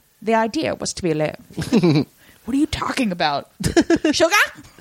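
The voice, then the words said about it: Imitates another person's voice. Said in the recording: “in my Liz voice”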